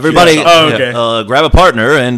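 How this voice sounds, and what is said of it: Impression of another person. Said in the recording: “pretty good impression of Randall”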